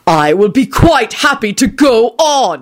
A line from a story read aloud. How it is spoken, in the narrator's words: he shouted